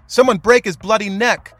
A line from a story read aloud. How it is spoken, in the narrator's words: men screaming